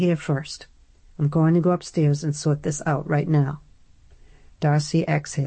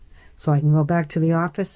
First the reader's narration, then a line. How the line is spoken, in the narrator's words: Adam sputtered